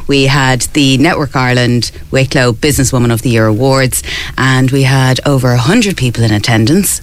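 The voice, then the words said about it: Tired, worn voice. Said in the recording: “As you can hear from my voice, it was a late, late night last night”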